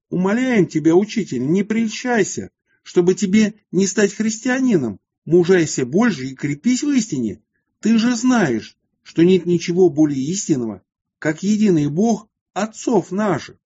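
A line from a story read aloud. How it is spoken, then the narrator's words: Crowd shouting. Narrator (Russian): собрание евреев закричало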